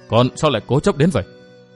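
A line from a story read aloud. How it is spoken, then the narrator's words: Sighing. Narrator (Vietnamese): Đồng Thục Quân thở dài nói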